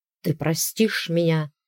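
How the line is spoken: Hoarse rasp. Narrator (Russian): прохрипел

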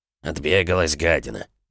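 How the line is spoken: Grumbling. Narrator (Russian): проворчал Кринг

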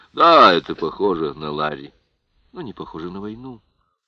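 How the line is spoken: Calm remark. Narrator (Russian): спокойно заметила Кэтрин

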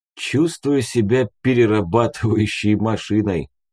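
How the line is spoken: Sighing. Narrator (Russian): вздохнул я

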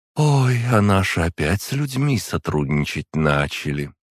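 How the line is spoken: Melodious female voice. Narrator (Russian): она своим довольно мелодичным голосом произнесла

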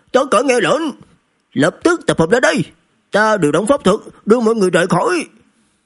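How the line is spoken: Terrified hurried shout. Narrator (Vietnamese): Đạo nhân áo lông lộ vẻ kinh hoàng, vội vàng hét lớn

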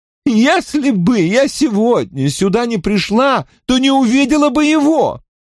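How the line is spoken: Passionate exclamation. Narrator (Russian): Горячо воскликнула она

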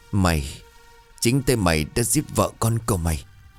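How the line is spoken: Halting, faltering voice. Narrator (Vietnamese): giọng nói cứ trở nên ngắc ngứ

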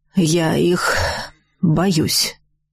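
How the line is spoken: Sighed. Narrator (Russian): вздохнул он

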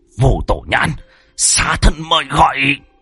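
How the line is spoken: Hiss. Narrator (Vietnamese): Hắn rít lên

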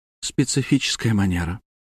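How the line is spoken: Quiet words in ear. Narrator (Russian): тихо сообщила мне на ухо Марина

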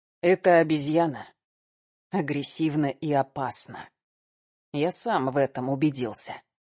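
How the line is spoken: Hoarse voice. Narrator (Russian): сказал хрипло

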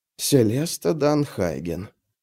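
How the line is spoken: Muttered. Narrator (Russian): пробормотал Орса

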